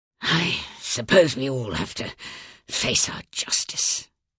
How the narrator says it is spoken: murmured

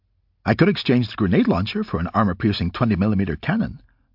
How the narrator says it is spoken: Modular Man said cheerfully

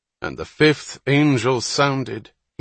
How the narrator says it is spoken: he began in a strong, vibrant voice

